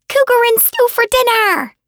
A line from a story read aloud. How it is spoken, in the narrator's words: She shrieked in joy